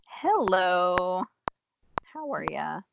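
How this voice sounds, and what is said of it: Sounds like a telemarketer. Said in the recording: “You sounded totally different right now. ... You sounded like a telemarketer lady.”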